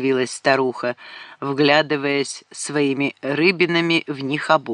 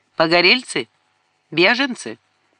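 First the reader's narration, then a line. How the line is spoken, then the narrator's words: Old woman, sharp question. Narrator (Russian): Старуха резко спросила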